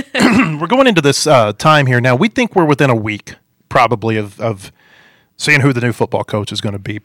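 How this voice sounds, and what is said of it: Hoarse, strained voice. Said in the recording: “I'm losing my voice here. It's all the jokes I was telling before the show.”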